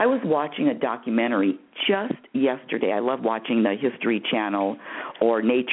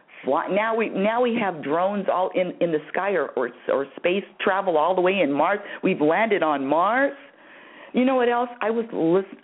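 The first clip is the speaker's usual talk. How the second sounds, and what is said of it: Passionate yelling. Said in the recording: “I don't know why I'm yelling at you. I'm sorry to yell at you, audience. I just get really passionate about this... Let me just take it down just a little bit.”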